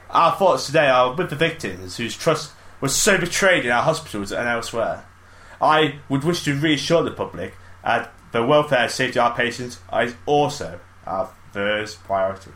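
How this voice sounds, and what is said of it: Imitates another person's voice. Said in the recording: “Are you trying to do an accent? ... I'm trying to do a voice. ... That was so seamless, mate. I thought there was another person in this room. That was so good. ... great imitations”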